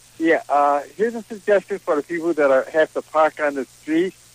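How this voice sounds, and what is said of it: Non-Boston regional accent. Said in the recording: “It's your accent. That's what it is. ... I'm not from Boston”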